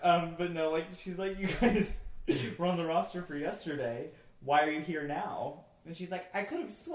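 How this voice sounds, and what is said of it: Usual voice. Nothing is said of it.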